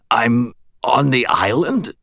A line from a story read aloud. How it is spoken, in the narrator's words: I rasped